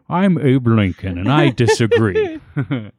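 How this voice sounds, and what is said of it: Imitates another person's voice. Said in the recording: “That's my impression of Abraham Lincoln.”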